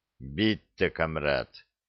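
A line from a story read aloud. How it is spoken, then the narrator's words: Grumbled with heavy accent. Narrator (Russian): пробурчал я, мой жуткий акцент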